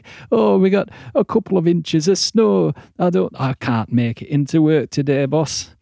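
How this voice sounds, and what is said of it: Put-on Northern English accent. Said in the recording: “I'm ever so sorry, Northerners. It's just an accent that comes easily to me.”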